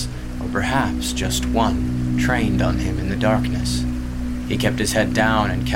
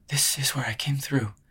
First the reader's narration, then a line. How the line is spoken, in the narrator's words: she breathed